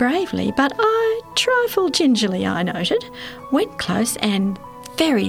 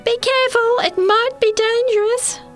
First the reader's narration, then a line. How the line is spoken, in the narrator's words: While I was yelling